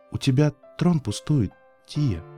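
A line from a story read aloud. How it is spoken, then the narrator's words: Quiet reply. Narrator (Russian): тихо ответила Луна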